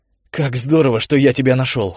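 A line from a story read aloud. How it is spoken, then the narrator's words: Exclaiming. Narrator (Russian): воскликнул он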